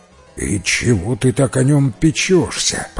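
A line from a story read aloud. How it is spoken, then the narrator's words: Grumbling giantess. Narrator (Russian): проворчала великанша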